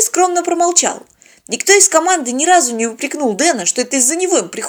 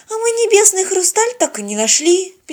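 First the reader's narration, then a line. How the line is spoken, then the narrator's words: Sad sigh. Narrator (Russian): печально вздохнула Полина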